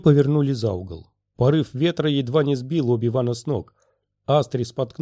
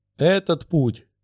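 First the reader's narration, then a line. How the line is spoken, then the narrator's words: Shouted. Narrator (Russian): крикнул Гог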